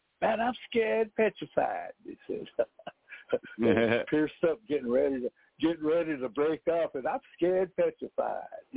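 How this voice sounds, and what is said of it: Imitated Oklahoma Apache accent. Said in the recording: “my Oklahoma Apache bros ... they talk with that accent”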